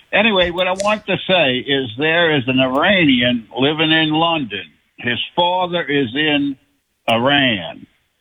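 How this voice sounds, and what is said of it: Louisiana accent. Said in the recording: “Oh, I love the accent. ... I'm from Louisiana.”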